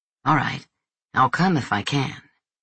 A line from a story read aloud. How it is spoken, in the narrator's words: Enzo mumbled